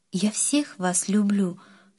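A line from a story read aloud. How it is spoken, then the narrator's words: Tearful mother. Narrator (Russian): сквозь слезы сказала мама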